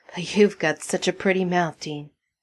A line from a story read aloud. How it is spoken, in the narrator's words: snarling